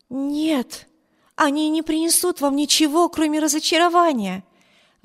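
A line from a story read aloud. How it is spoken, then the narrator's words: Exclamation. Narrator (Russian): воскликнула мисс Тревор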